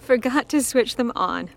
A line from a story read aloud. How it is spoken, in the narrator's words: Bo said, reproaching herself with a giggle